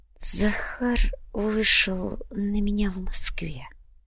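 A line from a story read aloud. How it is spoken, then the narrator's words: Quiet, baron. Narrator (Russian): негромко произнес барон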